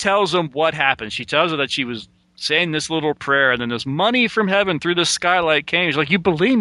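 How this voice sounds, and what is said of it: Usual voice. Nothing is said of it.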